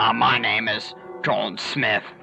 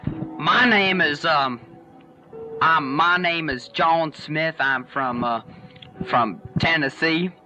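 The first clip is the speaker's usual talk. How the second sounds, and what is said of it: Phony put-on Tennessee accent. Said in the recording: “this phony accent.”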